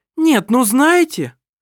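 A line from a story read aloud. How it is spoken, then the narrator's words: Exclaiming. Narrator (Russian): воскликнула Лисин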